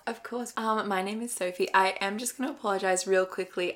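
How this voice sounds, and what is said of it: Raspy, strained voice. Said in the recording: “I am losing my voice, so if I'm a bit raspy”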